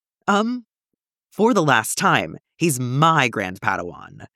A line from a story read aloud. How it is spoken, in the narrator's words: Master Tyvaka growled